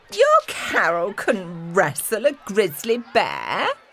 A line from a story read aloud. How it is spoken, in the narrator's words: sneered Belinda